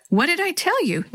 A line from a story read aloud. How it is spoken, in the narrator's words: Natalie said happily